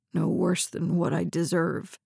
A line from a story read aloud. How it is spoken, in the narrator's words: mumbled